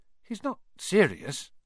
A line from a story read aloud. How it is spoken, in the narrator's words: he muttered to Percy